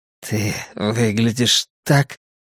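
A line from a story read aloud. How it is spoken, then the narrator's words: Muttered. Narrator (Russian): пробормотал он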